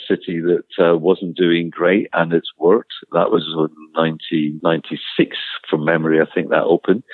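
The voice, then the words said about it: Scottish accent. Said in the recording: “You may have got from my accent that I'm Scottish.”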